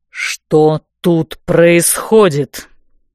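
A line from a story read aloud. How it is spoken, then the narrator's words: Booming, close by. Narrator (Russian): прогремел над ухом голос магистра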